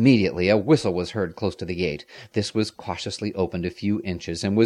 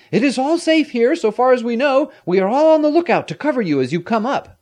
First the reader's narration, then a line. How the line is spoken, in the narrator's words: he shouted